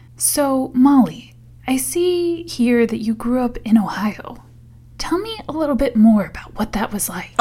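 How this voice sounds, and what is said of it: Public radio interviewer voice. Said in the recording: “my NPR voice”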